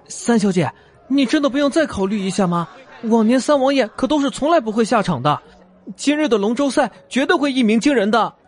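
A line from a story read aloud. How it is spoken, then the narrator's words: Glum, nervous. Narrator (Chinese): 那伙计哭丧着脸，看似忐忑的对他说道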